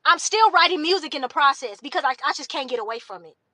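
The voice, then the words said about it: Yelling, loud voice. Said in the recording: “I'm yelling.”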